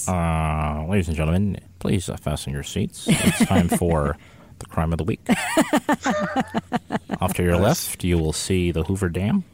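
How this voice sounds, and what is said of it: Airline pilot announcement voice. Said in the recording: “do your airline pilot voice”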